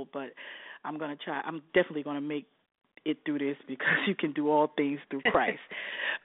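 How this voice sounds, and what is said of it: Congested voice from a cold. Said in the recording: “I have a cold,”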